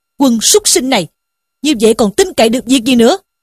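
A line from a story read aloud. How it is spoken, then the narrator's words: Angry scolding shout. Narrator (Vietnamese): Sử Tiến bần bần quát mắng rằng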